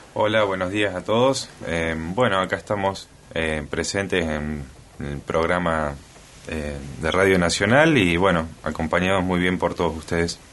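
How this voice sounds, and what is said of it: Rich announcer-like speaking voice. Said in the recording (Spanish): “qué voz ... Voz de locutor, qué voz ... Voz de locutor ... tener muy buena voz”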